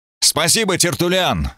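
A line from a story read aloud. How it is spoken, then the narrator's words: Shout. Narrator (Russian): выкрикнул я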